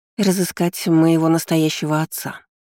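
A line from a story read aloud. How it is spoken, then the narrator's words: Sighing. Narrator (Russian): вздохнув, произнесла она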